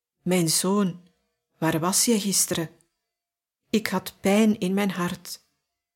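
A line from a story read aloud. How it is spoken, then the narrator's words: Father speaking softly. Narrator (Dutch): zijn vader zachtjes tegen hem zei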